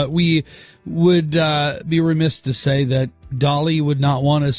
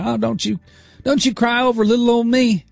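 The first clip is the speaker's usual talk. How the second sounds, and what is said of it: Poor imitation of another person's accent. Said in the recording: “it's a terrible accent”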